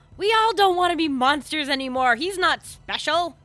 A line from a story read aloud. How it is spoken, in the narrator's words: I yell